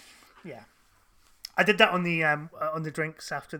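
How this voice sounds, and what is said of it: Usual voice. Nothing is said of it.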